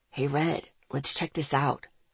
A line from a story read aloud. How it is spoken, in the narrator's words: he whispered